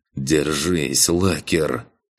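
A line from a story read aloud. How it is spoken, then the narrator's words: Strained whisper. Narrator (Russian): только и смог прошептать он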